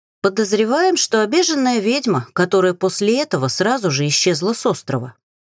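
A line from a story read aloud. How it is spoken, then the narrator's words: Plain. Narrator (Russian): ответила Энит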